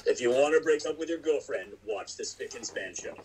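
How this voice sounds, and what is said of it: Exaggerated deep baritone voice. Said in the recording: “Got a little deep voice ... baritone world. In the voice.”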